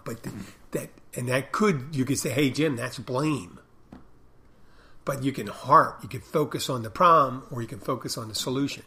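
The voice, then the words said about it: Raspy, older-sounding voice. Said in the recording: “Like the raspiness of my voice ... raspy. This is not my normal voice ... it sounds raspy. I sound old”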